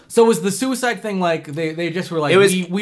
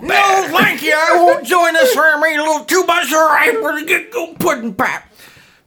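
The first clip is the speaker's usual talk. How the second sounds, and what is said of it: Imitates another person's voice. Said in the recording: “those were terrible fucking Bill Cosby impersonations”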